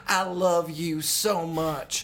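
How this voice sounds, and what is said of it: Put-on Southern accent. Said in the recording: “Charlize Theron is also doing a Southern accent. She's like”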